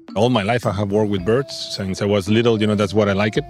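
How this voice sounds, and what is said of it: Spanish accent in English. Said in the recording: “That's not a New Zealand accent. is Spanish.”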